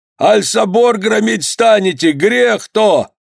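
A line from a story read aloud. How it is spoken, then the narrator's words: Deafening enraged bellow. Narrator (Russian): Воевода весь багровый заорал так, что в ушах зазвенело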